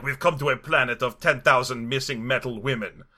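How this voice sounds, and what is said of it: Imitation of a French accent. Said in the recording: “Checky Cario's French accent was not helping with that ... the way his French accent comes, metal women”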